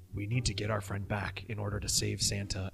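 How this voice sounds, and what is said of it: Low, whispery voice. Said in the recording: “Why are we whispering? ... This is my normal voice. ... It's so low and dulcet.”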